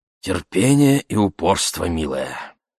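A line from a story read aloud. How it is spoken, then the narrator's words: Hoarse voice. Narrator (Russian): Хриплым голосом ответила Энджи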